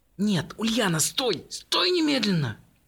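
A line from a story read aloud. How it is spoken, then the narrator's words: Desperate hiss. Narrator (Russian): Отчаянно зашипела мама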